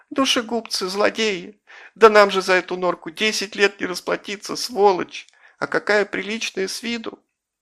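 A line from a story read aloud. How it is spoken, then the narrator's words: High-pitched wailing. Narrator (Russian): причитал тонким голосом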